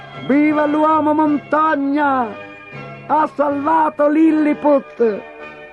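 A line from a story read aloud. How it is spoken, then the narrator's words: Crowd shouting. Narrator (Italian): gli gridarono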